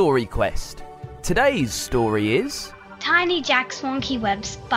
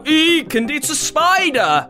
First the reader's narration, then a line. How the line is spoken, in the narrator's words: loudly with their voices when they see one